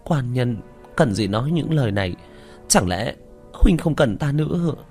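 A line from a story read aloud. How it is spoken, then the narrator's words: Choked, trembling. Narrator (Vietnamese): Bích Thanh đột nhiên nghẹn ngào run run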